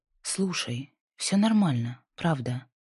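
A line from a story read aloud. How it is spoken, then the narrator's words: Soft, smiling. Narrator (Russian): Наконец сказала она, мягко улыбнувшись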